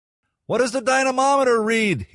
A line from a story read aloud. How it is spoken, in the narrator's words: he shouted to Maury